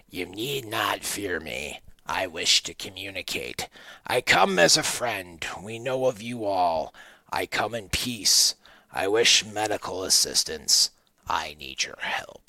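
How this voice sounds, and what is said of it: Imitated creature voice. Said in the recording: “my best Veggie Man impression”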